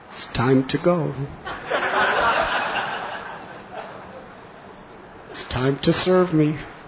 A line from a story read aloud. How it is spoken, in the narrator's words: she whispers